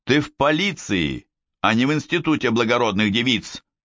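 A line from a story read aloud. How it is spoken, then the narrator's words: Barked drill-sergeant command. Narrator (Russian): рявкнул, как сержант на плацу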